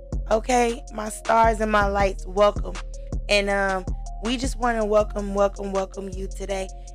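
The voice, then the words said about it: Strained, struggling voice. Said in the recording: “my voice is a little struggle bus.”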